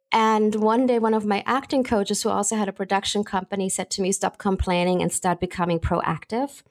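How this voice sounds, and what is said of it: German accent. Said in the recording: “I have a German accent”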